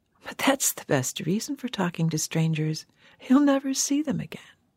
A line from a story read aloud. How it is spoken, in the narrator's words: With her provocative little laugh, the woman had said